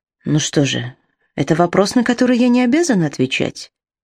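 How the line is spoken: Calm. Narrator (Russian): спокойно произнесла

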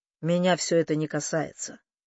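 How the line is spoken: Cold. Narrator (Russian): холодно отозвался Люк

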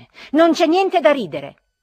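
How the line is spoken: Shouting, growing irritated. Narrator (Italian): gridai io a Ferfichin, irritandomi sempre di più

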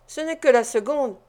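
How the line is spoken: Firm woman's reply. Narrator (French): répliqua la femme d'un ton décidé

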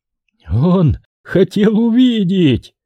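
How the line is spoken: Chuckling. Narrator (Russian): хохотнул Морот

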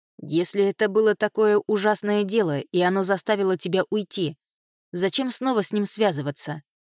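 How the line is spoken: Plain. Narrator (Russian): спросил он наконец

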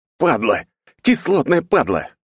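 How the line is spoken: Shouted. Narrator (Russian): выкрикнул

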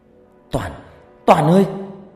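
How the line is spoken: Panicked crying out. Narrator (Vietnamese): Loan cứng đơ người, kêu lên thất thanh

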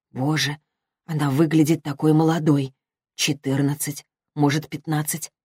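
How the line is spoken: Quiet, deeply pitying murmur. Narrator (Russian): пробормотала она тихим голосом, полным невероятной жалости

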